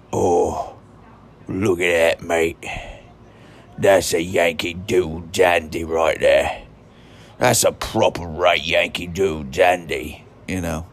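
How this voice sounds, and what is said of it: Exaggerated rough British accent. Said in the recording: “I like to do like a really rotten, disgusting British accent.”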